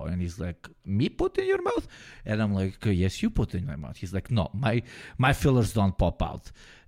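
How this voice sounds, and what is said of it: Put-on Slavic accent. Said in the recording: “For some reason, I'm doing like Slavic accent.”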